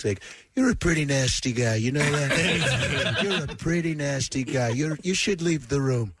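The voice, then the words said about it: Donald Trump impression. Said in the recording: “doing the imitation of him ... Doing an impression ... I just do Trump”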